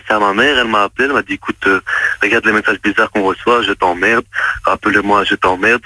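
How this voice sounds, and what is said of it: Belgian French accent. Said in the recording (French): “vous avez un accent, donc je suppose que vous êtes belge, non? Ou suisse ... Belge.”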